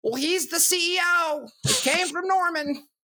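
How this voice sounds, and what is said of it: Put-on Ohio accent. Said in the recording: “is that your Ohio accent? ... Yeah, that's my Prok. ... It's better than your Australian for is sure.”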